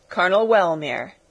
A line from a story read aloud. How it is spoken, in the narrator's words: interrupted the younger sister, laughing and blushing crimson